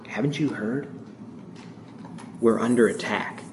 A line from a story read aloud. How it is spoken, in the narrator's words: he responded with quiet shock and a grave disbelief, just above a whisper, and he said